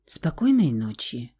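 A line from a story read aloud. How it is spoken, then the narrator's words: Soft, quiet. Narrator (Russian): тихонько пожелал птиц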